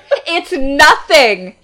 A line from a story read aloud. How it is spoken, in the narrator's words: snapped